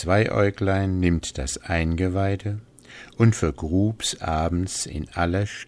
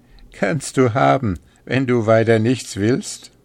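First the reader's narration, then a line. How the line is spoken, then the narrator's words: Group speaking laughing. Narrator (German): Da lachten sie und sprachen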